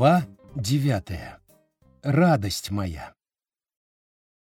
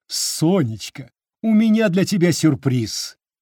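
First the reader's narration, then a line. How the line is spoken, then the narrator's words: Joyful announcement. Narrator (Russian): радостно заявила Римма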